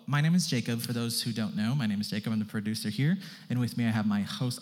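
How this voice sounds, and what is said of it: Very fast speech. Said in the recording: “I'm talking very fast.”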